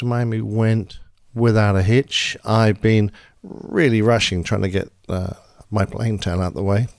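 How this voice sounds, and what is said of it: Hoarse voice from a cold. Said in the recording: “I've caught a cold. ... I'm losing my voice ... soothing your ... weary voice ... I could hardly speak”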